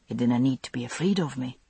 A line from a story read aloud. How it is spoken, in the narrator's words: he said softly